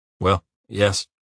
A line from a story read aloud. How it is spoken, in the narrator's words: replied hesitantly